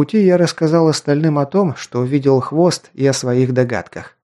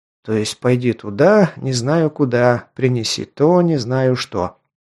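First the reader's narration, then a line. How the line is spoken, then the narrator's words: Displeased mutter. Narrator (Russian): недовольно пробормотал Джан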